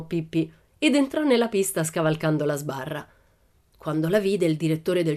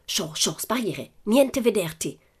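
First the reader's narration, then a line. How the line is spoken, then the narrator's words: Hissed through teeth. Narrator (Italian): sibilò tra i denti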